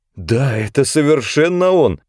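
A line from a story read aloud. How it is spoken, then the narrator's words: Exclamation. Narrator (Russian): воскликнула Брике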